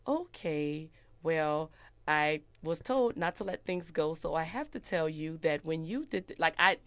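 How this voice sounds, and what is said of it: Flat robotic speaking style. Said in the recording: “I talk like a robot now”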